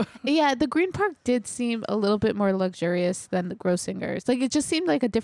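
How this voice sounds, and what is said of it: Usual voice. Nothing is said of it.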